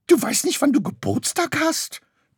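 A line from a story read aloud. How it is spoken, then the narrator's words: Shrieked. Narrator (German): kreischte Graugans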